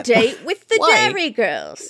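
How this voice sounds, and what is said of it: Poor put-on Cockney accent. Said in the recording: “No, that was horrible. That was Cockney. ... I'm doing Cockney now.”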